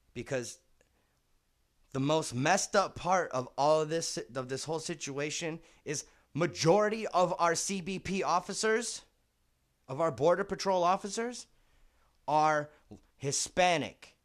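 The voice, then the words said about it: Passionate, impassioned speaking voice. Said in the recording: “Yes, I'm passionate. Yes. You can hear it in my voice.”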